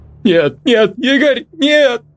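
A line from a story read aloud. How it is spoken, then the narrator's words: Girl sobbing. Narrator (Russian): Рыдала девушка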